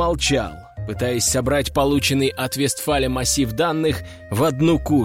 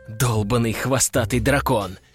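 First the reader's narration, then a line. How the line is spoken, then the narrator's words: Inner hiss. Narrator (Russian): мысленно прошипел я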